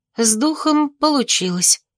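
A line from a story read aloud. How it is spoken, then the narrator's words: Announced. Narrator (Russian): объявила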